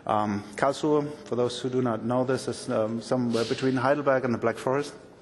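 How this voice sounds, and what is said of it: German accent in English. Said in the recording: “I'm German ... so excuse my accent.”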